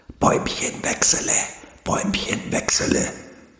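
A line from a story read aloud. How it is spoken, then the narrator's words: Hissing leaves. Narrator (German): zischelten nun auch alle Blätter ringsum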